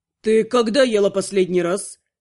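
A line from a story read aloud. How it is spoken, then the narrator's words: Stern question. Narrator (Russian): строго спросил некромант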